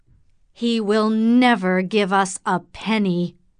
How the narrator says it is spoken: said Morris angrily

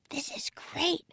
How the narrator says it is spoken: whispered Annie

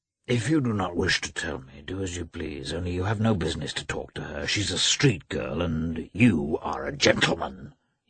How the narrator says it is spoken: he muttered

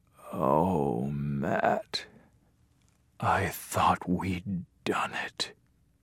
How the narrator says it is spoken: he whispered

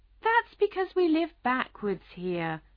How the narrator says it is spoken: explained the Queen kindly

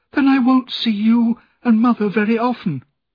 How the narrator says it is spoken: cried

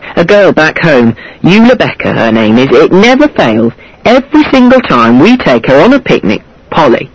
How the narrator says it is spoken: I said sharply

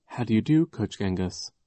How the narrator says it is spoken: in the dazed tone of voice Klaus had used when he had been under hypnosis

